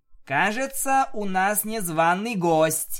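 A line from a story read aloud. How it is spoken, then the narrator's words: Loud, cold statement. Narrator (Russian): довольно громко сказала Луна, без единой теплой нотки в голосе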